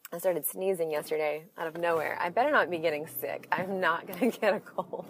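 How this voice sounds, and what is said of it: Scratchy, hoarse voice. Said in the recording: “I'm losing my voice. ... now I sound all scratchy”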